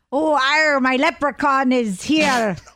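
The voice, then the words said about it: Put-on Irish accent, pirate-like. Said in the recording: “Oh, you sound like a pirate.”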